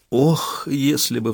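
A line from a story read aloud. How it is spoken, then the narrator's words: Sighed. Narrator (Russian): вздохнула Самсуд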